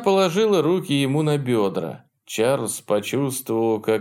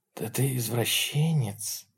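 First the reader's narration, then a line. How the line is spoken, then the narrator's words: Hoarse with excitement. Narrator (Russian): сказала она охрипшим от волнения голосом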